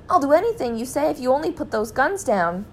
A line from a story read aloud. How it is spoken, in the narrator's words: cried Mr